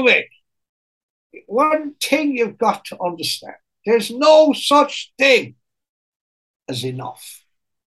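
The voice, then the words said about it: Put-on Irish accent. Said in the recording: “I can't do the Irish accent in front of you. It's too cringy ... Thought you were doing well.”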